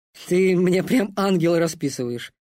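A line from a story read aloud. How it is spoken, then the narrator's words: Snorting. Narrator (Russian): хмыкнул Гвоздь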